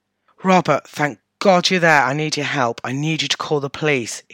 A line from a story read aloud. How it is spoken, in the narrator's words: he said in a breathless and hurried voice